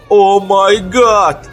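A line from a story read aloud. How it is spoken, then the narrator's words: Desperate male sob. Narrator (Russian): отчаянно всхлипнул мужской голос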